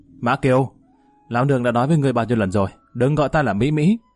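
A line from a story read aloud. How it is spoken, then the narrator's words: Trembling angry shout. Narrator (Vietnamese): Lỗ Mỹ Mỹ đã run rẩy toàn thân, hướng Mã Kiều quát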